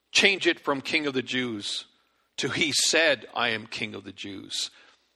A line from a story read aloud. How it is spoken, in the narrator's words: Pilate replied